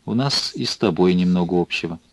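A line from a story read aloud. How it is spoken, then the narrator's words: Quiet, suddenly humble. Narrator (Russian): с внезапным смирением тихо сказала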